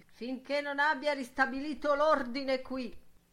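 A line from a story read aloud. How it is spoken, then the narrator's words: Old man's stern shout. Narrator (Italian): la sua voce da vecchio gridava severa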